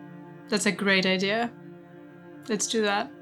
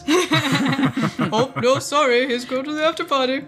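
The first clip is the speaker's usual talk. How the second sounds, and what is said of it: Put-on voice of theatre staff. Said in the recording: “Now you do the voice.”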